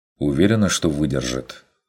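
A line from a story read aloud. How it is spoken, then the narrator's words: Plain. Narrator (Russian): спросил Курт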